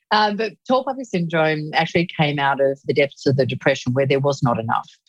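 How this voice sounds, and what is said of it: Australian accent. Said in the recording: “tall poppy syndrome that is uniquely Australian ... they realized that it was my accent”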